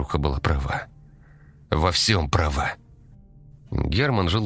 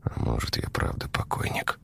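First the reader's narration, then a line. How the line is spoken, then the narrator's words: Mumbled. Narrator (Russian): Пробормотал он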